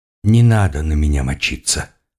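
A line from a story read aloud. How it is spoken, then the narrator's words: Plain. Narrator (Russian): сказал он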